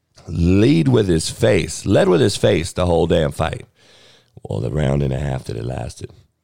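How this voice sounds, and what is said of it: Hoarse, strained, worn-out voice. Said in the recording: “that's a lot of the reason I lost my voice.”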